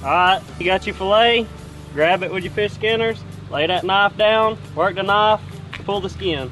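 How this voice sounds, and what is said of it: Strong Southern US accent. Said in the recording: “that southern accent, was pretty darn southern”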